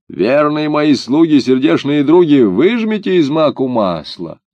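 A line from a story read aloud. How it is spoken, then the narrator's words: Old woman shouting. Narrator (Russian): Старуха крикнула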